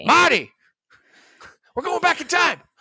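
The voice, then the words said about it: Loud yelling impression of a character. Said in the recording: “all I can do is Doc Brown ... just yelling loudly.”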